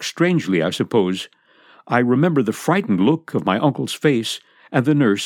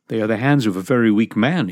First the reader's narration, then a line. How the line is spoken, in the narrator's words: he said